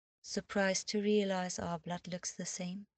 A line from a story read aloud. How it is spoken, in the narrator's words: asked in a mild voice